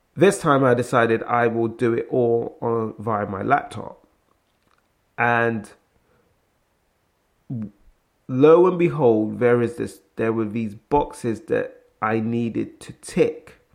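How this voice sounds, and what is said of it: British English accent. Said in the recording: “you can tell by my accent. ... I'm based in the UK”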